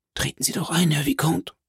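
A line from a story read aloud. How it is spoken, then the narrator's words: Very quiet. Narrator (German): sagte Philipp ganz leise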